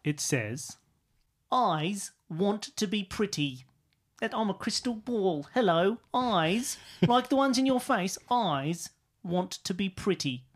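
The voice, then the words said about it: Put-on Cockney accent. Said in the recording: “giving me this voice? ... The Cockney, Cockney crystal.”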